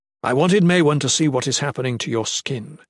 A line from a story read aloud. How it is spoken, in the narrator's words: Ethrys said